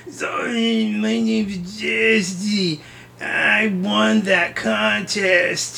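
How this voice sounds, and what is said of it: Imitates another person's voice. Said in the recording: “That's my Jesse impersonation.”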